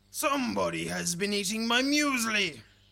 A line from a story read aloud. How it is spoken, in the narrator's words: he bellowed in his big growly voice